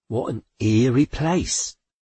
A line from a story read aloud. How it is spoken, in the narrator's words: Aunt Teresa said uneasily